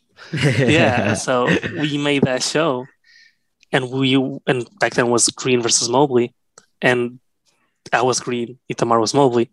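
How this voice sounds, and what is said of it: Slight Portuguese accent in English. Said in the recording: “I'm Portuguese. I say my English is pretty good, but the accent is still a little different.”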